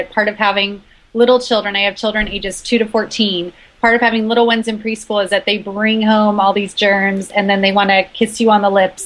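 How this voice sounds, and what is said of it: Congested voice with a cold. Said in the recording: “I have a cold, so I may have to clear my throat a little bit ... I'm battling a cold right now”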